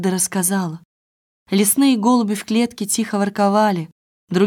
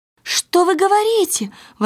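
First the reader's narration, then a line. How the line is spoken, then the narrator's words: Exclaim. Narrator (Russian): воскликнула Герда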